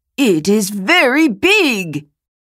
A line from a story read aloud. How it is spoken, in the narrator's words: He exclaimed